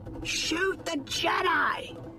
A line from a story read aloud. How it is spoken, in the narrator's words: Kitar screamed, his voice cracking